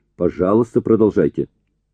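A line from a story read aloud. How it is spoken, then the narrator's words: Sharp demand. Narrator (Russian): Эллери резко потребовал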